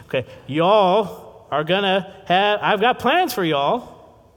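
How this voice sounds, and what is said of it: Weak put-on Texan accent. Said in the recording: “my Texan accent's not too good”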